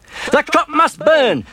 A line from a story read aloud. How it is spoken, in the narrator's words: the farmer cried